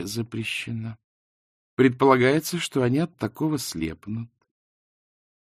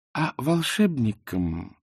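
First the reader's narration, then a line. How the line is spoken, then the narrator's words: Sweet, smiling retort. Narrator (Russian): улыбнувшись, сладким голосом парировала Канина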